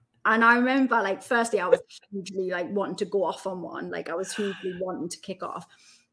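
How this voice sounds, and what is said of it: Newcastle accent. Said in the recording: “I hadn't really left Newcastle. So my accent was thicker than it is now as well.”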